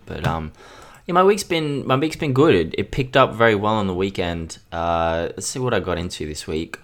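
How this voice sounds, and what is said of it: Sounds weird from a cold. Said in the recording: “I got cold, man. So if I sound weird ... I'm getting sick a lot lately”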